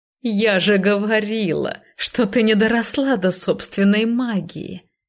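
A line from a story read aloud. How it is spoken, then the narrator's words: Gloating witch's laughter. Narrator (Russian): Злорадно расхохоталась ведьма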